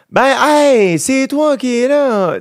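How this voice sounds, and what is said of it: Sing-song high-pitched Saguenay accent. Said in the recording (French): “il y a de quoi de très chanté ... c'est très high pitch, là ... c'est super chanté”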